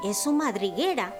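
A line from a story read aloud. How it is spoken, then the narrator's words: Whispering. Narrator (Spanish): susurró Diego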